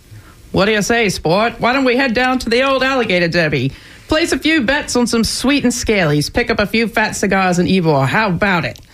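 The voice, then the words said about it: Transatlantic accent. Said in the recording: “Transatlantic accent.”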